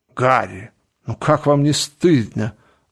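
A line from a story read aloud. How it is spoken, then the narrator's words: Exclaiming. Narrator (Russian): воскликнул Дориан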